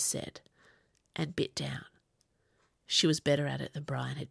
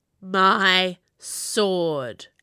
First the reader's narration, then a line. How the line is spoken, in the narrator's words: Agrippina snarled in my head